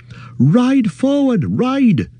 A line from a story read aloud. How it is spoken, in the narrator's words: cried Glorfindel to Frodo